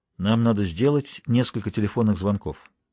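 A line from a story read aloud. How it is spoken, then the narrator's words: Detached tone. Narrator (Russian): вслух отстраненным тоном заметил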